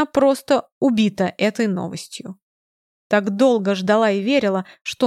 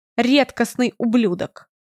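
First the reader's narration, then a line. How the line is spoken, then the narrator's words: Angry reply. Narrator (Russian): Зло отвечаю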